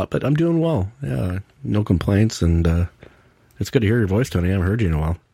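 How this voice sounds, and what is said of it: Voice sounds rough and unwell. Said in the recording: “Sorry about my voice, not sounding too hot”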